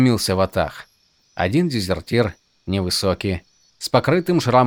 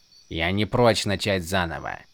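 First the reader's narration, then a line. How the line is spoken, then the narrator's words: Grumbling. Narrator (Russian): проворчал он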